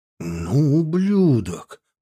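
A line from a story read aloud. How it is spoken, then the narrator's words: Muttered. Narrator (Russian): пробормотал он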